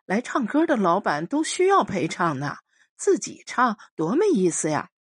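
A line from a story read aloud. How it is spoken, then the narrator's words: Startled, forced cheerfulness. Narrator (Chinese): 那女孩有点愕然，接着挤出一个笑脸，说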